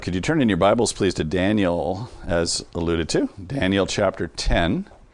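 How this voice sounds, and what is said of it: Congested, slightly off voice. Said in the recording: “my voice sounds a little off. I'm just getting over a chest congestion.”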